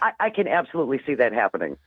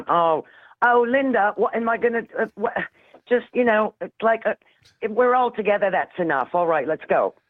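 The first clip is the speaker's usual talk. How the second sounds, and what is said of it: Weak put-on Liverpool accent. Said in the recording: “I know you have a better Liverpool accent than that.”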